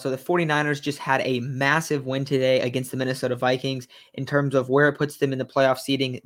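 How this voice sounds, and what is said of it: Stuffy, congested voice. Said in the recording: “I sound a little stuffy. I'm pretty sick right now”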